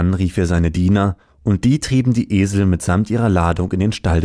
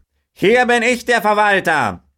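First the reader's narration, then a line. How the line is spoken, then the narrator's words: Farmer calling out. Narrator (German): rief der Bauer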